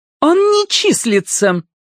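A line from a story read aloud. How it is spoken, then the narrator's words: Thin high voice. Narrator (Russian): тонким голосом сообщила Аида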